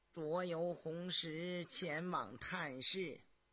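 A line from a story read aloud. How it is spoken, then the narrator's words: Flat, indifferent. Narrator (Chinese): 高无庸脸上毫无表情，淡淡地说道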